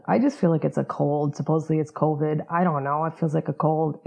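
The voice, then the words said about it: Voice sounds like a cold. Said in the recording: “hear in my voice that I have a cold.”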